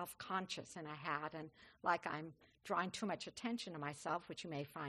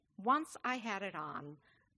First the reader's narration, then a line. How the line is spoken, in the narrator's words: she exclaimed